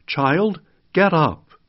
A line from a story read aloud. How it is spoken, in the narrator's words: Jesus called out